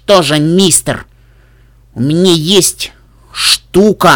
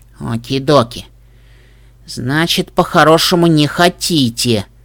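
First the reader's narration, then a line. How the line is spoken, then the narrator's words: Sighed. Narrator (Russian): вздохнула Пупи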